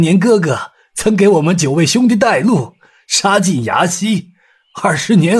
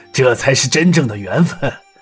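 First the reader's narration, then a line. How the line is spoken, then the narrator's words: Laughing. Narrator (Chinese): 牛太官笑道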